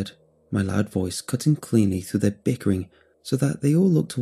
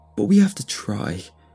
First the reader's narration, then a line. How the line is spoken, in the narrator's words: he cried